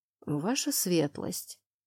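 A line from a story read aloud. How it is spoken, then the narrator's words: Trembling whisper. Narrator (Russian): обратился ко мне советник герцога дрожащим, то ли от страха, то ли от возмущения шепотом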